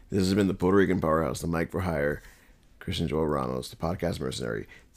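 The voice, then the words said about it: Rough, sick-sounding voice. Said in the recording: “my voice sounds terrible, it's because I'm still like getting over this cold ... my voice sounds horrible”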